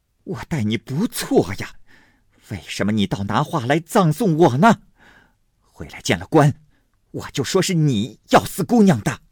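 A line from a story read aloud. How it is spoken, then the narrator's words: Furious, through gritted teeth. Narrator (Chinese): 金贵的母亲恨得咬牙切齿的骂宝钗说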